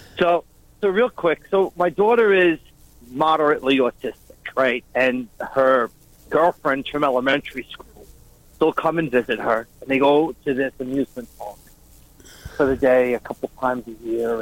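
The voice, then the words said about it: Long Island accent. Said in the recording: “We recognize that Long Island-ass accent.”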